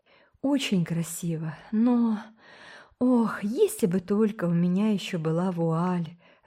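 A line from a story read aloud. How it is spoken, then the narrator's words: Sighing. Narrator (Russian): вздохнула Миранда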